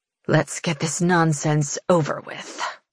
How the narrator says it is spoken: she snarls under her breath

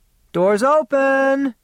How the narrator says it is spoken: she shouted

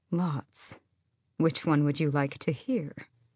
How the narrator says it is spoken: he smiled faintly and said

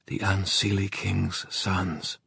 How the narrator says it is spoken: whispered Mark

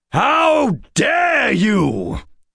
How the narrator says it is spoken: Addison shouted, livid

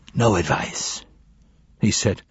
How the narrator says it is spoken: his voice a whisper

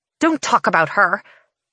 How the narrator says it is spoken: she snaps

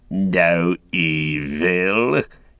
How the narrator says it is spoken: he cackled

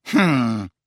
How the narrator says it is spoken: snorted Professor McGonagall

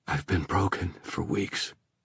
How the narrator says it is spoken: he said unsteadily

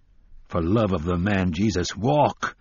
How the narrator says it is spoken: the gunslinger said roughly

